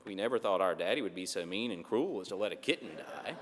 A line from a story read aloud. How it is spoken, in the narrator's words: they mumble